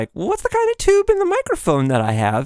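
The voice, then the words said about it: Voice rises in pitch. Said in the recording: “why does my voice go up like that when I'm talking about tubes?”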